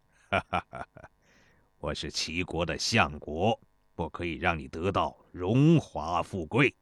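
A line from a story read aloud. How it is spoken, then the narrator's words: Laughing. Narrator (Chinese): 邹忌笑道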